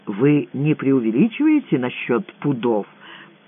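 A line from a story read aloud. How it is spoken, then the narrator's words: Quiet question. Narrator (Russian): негромко спросил Лямпе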